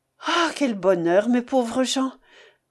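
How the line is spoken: Panting with joy, fatigue. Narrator (French): Sans pouvoir dire autre chose, tant il haletait de joie et de fatigue

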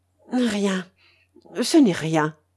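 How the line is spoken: Stammered. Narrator (French): balbutia Gaston

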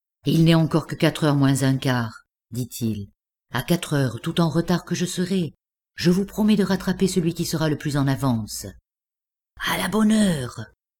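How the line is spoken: Low voice. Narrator (French): nous échangeions ces paroles à voix basse

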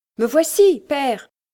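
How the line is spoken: Wildly joyful shout. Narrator (French): cria Hans à moitié fou de joie

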